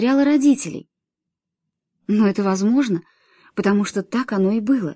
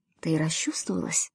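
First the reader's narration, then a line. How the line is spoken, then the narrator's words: Conspiratorial whisper. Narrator (Russian): Эд заговорчески прошептал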